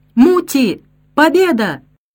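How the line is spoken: Shouting. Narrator (Russian): закричал

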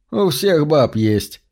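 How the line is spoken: Laughing. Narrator (Russian): засмеялся он

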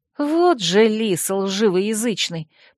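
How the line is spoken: Hissed. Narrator (Russian): прошипела я

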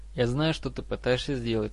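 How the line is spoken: Calm reply. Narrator (Russian): спокойно ответил Драко

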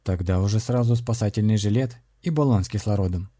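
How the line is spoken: Wry smirking remark. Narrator (Russian): усмехнулся бывший крестоносец

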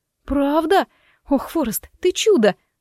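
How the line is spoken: Joyful exclaiming. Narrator (Russian): воскликнула я

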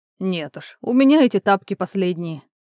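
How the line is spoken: Snorting. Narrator (Russian): Раби хмыкнул

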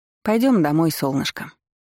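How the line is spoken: Unexpectedly tender young woman. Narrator (Russian): неожиданно ласково отозвалась девушка

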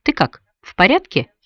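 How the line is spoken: Plain. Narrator (Russian): спросил он

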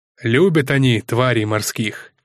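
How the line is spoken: Plain. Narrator (Russian): сказал Пересол

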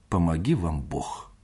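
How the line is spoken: Muttered. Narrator (Russian): пробормотал он

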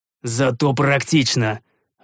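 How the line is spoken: Snapping retort. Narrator (Russian): огрызнулся

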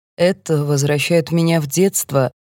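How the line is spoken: Lazy drawl. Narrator (Russian): лениво говорит голландец

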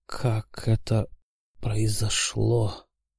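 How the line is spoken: Astonished whisper. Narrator (Russian): изумленно прошептал он

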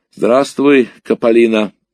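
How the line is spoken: Cheerful. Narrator (Russian): бодро сказал я

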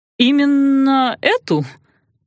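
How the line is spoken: Cheerful questioning. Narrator (Russian): весело переспросил князь

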